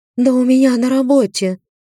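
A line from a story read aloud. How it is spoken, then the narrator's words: Sighing. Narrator (Russian): вздохнула Марина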